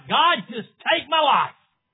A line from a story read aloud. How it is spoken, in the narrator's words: cried out